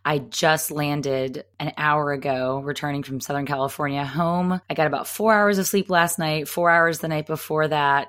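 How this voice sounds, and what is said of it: Tired voice, much lower pitch. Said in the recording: “You can probably hear in my voice, it's about an octave or two lower than it usually is ... I am exhausted and moderately incoherent.”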